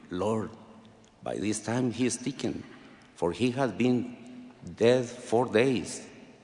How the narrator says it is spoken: Martha timidly whispered to him

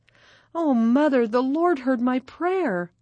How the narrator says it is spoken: Maggie exclaimed

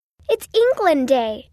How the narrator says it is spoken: Amy squealed

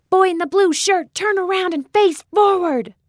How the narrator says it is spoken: Marcia yelled

